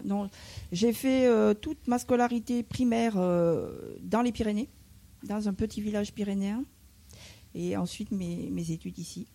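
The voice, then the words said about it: Slight southern French provincial accent. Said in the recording (French): “il y a un petit accent, oui ... Il y a un petit accent qui n'est pas d'origine parisienne, vient des villages provinciaux du sud de la France.”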